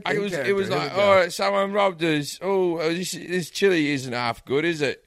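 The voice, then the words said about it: Terrible put-on accent. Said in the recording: “I do like a terrible accent. My acting's really bad”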